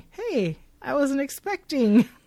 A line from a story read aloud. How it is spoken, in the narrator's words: he says warmly